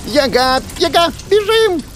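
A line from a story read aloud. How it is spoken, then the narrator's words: Squeaking. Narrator (Russian): запищал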